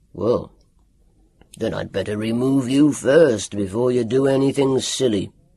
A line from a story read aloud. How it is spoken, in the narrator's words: grunted Dr